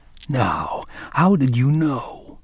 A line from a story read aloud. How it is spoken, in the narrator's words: whispered again, filled with admiration